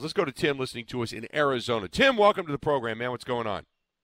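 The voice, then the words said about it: Slightly raspy voice. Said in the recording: “rest your pipes. You sound a little raspy”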